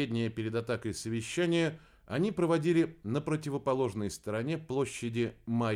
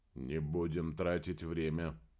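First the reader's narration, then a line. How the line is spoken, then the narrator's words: Quiet. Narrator (Russian): негромко произнес Помпилио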